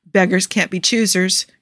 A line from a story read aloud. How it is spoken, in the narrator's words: Joe murmurs